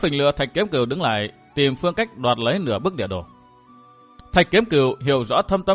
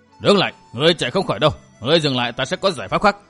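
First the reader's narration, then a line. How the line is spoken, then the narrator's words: Old man shouting while chasing. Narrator (Vietnamese): lão quái nhân áo đỏ bịt mặt vừa quát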